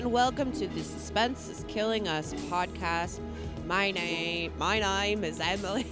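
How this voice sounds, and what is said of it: Put-on Australian accent. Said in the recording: “doing her famous Australian accent.”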